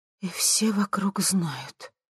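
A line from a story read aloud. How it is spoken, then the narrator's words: Quiet, astonished. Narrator (Russian): тихо проговорила она в изумлении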